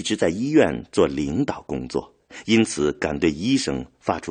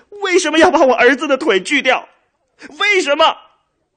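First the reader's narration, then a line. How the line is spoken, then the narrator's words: Crying out. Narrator (Chinese): 他对周围的医护人员哭喊着说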